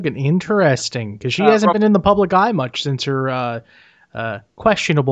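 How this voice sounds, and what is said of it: Usual voice. Nothing is said of it.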